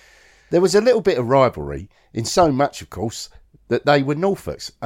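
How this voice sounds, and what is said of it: Usual voice. Nothing is said of it.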